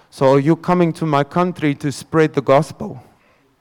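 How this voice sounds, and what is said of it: Thick Russian accent. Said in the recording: “with a very thick Russian accent”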